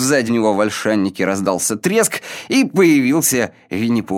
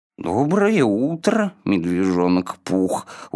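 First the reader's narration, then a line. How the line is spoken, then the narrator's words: Glum reply. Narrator (Russian): уныло ответил Ио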